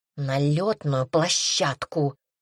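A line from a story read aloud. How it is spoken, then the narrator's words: Through gritted teeth. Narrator (Russian): процедил сквозь зубы Шнатор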